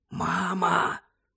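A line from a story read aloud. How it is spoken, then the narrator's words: Whispered. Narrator (Ukrainian): прошепотів Джордж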